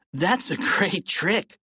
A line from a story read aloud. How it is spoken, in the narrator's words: George laughed